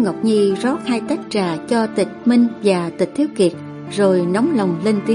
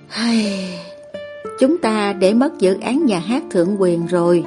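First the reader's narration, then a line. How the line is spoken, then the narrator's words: Sighing. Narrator (Vietnamese): Tịch Minh thở dài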